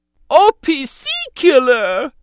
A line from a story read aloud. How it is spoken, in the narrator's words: Jar Jar cried in dismay